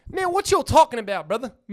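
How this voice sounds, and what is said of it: Texas accent. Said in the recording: “the Texas accent”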